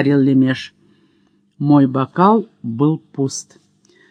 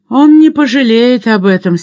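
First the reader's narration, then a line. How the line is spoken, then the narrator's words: Angry. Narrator (Russian): сердито сказал гетман Житомирский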